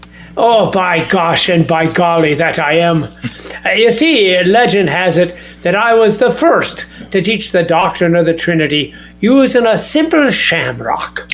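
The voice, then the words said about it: Irish brogue accent. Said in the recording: “my Gaelic brogue and the accent of the Galileans”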